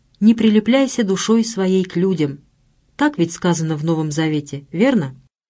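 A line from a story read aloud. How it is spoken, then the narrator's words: Unusually cheerful tone. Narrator (Russian): каким-то необычайно веселым тоном произнес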